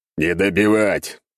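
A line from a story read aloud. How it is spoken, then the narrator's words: Growled. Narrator (Russian): прорычал я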